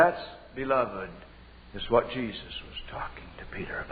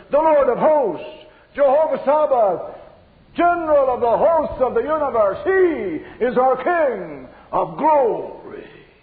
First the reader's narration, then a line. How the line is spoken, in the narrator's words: the answer thunders